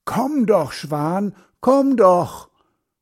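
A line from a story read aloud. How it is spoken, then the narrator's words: Calling out. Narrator (German): Er ruft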